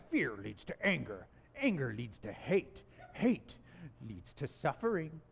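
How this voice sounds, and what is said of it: Imperfect Yoda voice impression. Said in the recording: “that probably wasn't my best Yoda impression”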